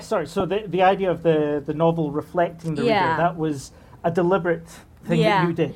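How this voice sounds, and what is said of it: Scottish accent. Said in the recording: “that's the Scottish accent ... That's Scottish. It's very royal accent”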